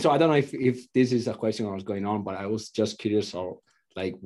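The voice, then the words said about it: Strong Italian accent. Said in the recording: “you have a very deep accent, ... very prominent, from a different country, ... from Italy”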